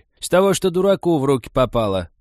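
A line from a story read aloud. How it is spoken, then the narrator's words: Loud, categorical old woman. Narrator (Russian): так громко и категорично объявила старуха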